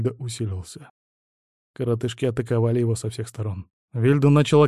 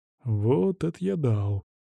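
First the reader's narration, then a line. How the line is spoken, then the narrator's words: Surprised drawl. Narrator (Russian): удивленно протянул Вильд, с трудом беря в увиденное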